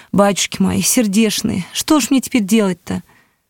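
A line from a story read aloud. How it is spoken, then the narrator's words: Old woman sobbing. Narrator (Russian): Какая-то старуха рыдала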